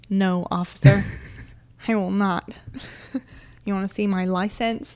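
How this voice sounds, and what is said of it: Put-on American accent. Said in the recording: “why are you changing your accent all of a sudden?... Because I'm being American”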